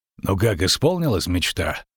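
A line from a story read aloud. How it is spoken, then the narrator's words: Muttered. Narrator (Russian): буркнул Геральт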